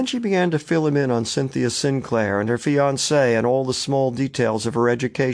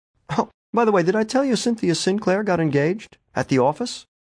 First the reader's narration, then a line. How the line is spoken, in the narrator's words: She laughed, a little trill